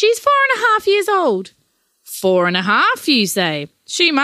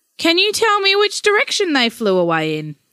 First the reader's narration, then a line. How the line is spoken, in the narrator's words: the policeman asked, hardly able to contain his laughter